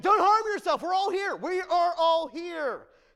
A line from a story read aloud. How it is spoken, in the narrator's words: Paul shouted quickly